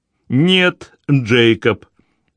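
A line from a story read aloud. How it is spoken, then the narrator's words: Stern interruption by mother. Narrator (Russian): строго оборвала его мать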